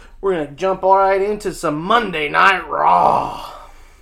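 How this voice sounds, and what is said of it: Bad Vince McMahon impression. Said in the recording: “Little uh, Vince McMahon impersonation for you. ... Terrible, I know”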